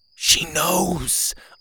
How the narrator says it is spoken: I whispered

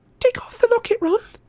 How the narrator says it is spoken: Hermione said, her voice unnaturally high

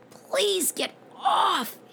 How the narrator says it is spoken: he wheezed

